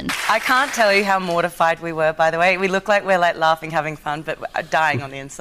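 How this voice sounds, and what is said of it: Australian accent. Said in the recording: “Margot Robbie's Australian accent. I forget sometimes that she's an Aussie.”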